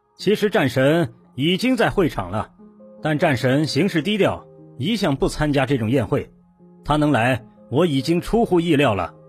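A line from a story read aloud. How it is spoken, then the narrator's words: Smiling. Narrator (Chinese): 青龙笑笑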